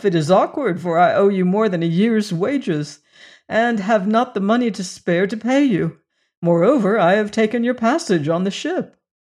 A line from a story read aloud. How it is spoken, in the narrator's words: he added with a little laugh